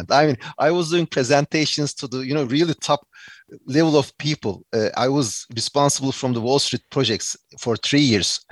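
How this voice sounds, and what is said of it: Turkish-accented English. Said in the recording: “I have Turkish English accent”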